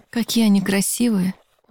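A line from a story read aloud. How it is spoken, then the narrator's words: Breathless admiring exclamation. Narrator (Russian): Выдохнула я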